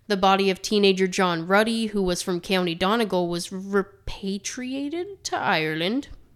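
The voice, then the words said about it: Weird unintended Irish accent. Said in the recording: “I did not mean to say it with a weird Irish accent. That was weird.”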